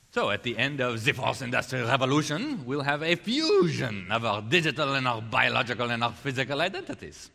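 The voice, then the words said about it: Klaus Schwab impression. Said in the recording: “You guys like my Klaus Schwab impersonation?”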